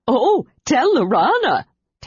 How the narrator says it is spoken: Tasselhoff said through a smothered giggle

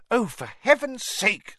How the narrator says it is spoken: said Hermione angrily

